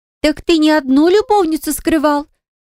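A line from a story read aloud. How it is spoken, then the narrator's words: Shocked exclamation. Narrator (Russian): Пораженно воскликнула Иза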